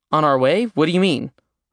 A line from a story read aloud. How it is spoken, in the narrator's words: Thrym chuckled